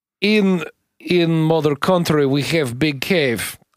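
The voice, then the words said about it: Put-on Russian accent. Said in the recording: “Send us one that replaces the word Scottish with Russian”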